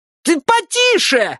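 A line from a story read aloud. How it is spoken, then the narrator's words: Shrill unpleasant squeal. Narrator (Russian): взвизгнул курьер высоким противным голосом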